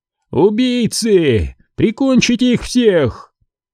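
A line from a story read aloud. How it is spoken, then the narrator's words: Gasp then scream. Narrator (Russian): ахнула и закричала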